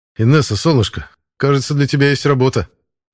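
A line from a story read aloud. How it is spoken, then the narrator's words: Wry snort. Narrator (Russian): хмыкнул я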